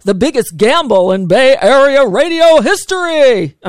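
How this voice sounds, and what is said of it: Radio announcer voice. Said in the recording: “I'm trying to do my announcer voice.”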